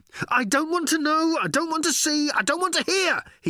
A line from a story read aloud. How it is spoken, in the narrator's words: he yelled as he ran